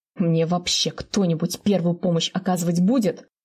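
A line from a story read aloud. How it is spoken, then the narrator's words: Wounded man's indignant roar. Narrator (Russian): Возмущенно ревет раненый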